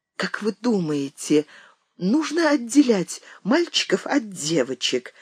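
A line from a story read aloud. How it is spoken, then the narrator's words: Trembling whisper. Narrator (Russian): дрожащим шепотом спросила Беатриса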